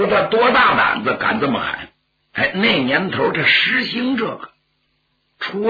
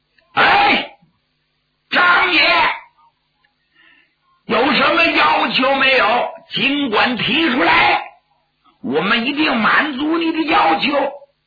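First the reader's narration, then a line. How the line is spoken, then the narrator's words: Shouting. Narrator (Chinese): 开绸缎庄的东家冲张作霖就喊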